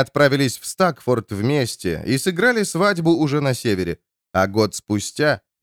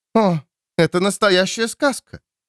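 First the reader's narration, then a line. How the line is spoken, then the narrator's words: Exclamation. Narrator (Russian): воскликнула Бекка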